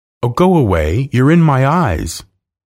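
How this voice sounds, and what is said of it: Loud voice. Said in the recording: “in a loud voice.”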